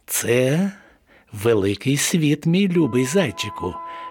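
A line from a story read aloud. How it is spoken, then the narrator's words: Plain. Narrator (Ukrainian): відповіла мама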